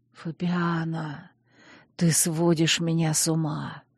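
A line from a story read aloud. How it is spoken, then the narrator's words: Hoarse passionate whisper. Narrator (Russian): шептал, смешивая поцелуи с хриплым шепотом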